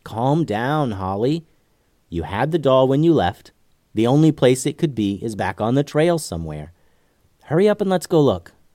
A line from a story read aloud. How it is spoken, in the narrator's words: said Lucy